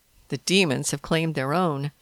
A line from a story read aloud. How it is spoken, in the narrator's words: James snorted